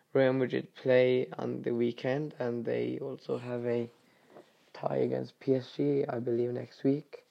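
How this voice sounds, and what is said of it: Voice affected by illness. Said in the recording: “Sorry about my voice. As you can tell, the bacterial infection stayed.”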